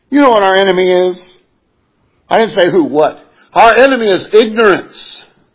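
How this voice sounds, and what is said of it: Regional American accent. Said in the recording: “You might be able to tell from a brogue, I'm not from Oklahoma”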